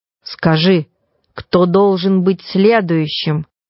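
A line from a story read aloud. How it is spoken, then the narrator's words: Stern command. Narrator (Russian): строго приказал духу Проспера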